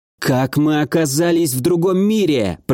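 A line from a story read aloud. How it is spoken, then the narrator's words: Through gritted teeth. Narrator (Russian): процедила Агата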